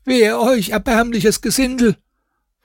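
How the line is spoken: Water carrier shouting. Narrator (German): Dem Wasserträger, welcher dann schrie

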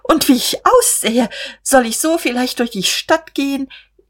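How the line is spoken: Startled, helpless laugh. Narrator (German): erschrak aufs Neue und lachte ratlos

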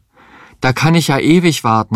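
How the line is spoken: Desperate cry. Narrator (German): rief verzweifelt

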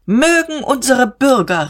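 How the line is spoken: Call. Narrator (German): rief Diederich

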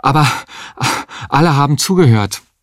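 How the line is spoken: Said panting. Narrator (German): sagte er keuchend

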